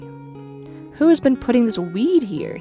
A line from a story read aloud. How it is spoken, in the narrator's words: he cried